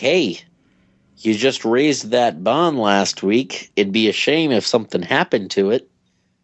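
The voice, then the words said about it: Put-on Boston accent. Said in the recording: “I love how you say it with a Boston accent.”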